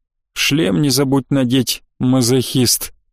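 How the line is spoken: Grumbling. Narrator (Russian): проворчал я

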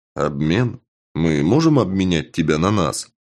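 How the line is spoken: Hesitant, uncertain reply. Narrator (Russian): Пленник задумался, затем ответил неуверенно

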